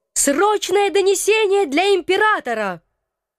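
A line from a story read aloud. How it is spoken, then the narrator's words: Full-voiced yell. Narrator (Russian): заорала в полный голос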